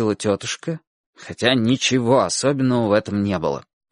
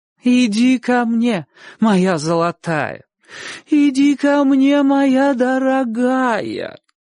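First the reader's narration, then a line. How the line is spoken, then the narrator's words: Singsong chant. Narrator (Russian): Нараспев повторяла тетушка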